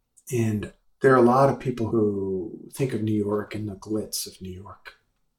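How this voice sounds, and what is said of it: Brooklyn New York accent. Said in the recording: “I grew up in Brooklyn. It's kind of obvious from my accent.”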